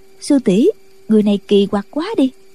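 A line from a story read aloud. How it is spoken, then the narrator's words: Soft, gentle. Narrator (Vietnamese): Một người nhỏ nhẹ nói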